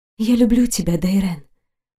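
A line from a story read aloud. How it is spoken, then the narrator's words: Soft whisper. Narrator (Russian): прошептала тихо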